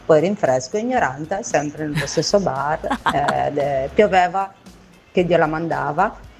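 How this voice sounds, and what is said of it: Sardinian-sounding Italian accent. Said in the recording (Italian): “mi sembrava poco Voghera quell'accento lì, eh? Non lo so, mi sapeva di sardo, credo.”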